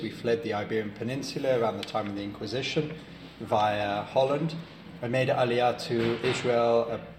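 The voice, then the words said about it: British English accent. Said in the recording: “As you can probably tell from my accent, I'm British”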